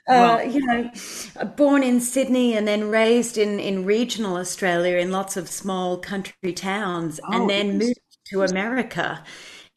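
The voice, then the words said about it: Australian accent with American twang. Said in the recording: “as far as Australians go... now I have a kind of twang in my accent from having lived in Nashville”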